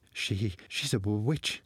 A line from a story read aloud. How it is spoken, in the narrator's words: said the boy, suddenly stammering in fear